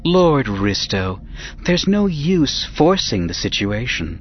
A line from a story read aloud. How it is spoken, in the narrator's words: she cooed in her Feline voice